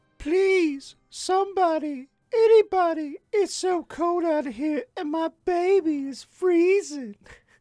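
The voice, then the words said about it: Pleading voice of a Japanese woman. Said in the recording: “Very Japanese. Probably way safer than trying to do a Japanese accent”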